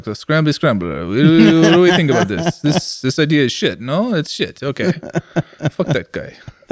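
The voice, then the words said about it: Put-on Italian accent. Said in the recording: “That's a really interesting Italian accent.”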